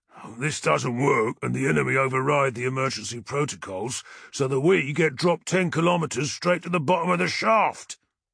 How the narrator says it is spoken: the sergeant replied gruffly, his usual humour stifled by the tension that was building among the legionaries

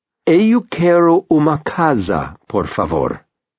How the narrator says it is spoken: he says slowly

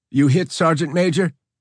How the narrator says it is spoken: McNeil yelled above the din of his own rifle firing

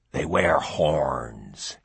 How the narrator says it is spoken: he croaked

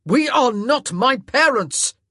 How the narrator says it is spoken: he roared

